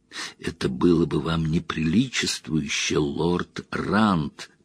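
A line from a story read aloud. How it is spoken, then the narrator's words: Whisper. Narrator (Russian): прошептал он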